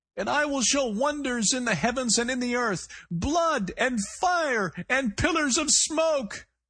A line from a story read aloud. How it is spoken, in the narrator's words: the voice cried, cracking again with fatigue, emotion, or perhaps the strain of keeping a finger hold on reality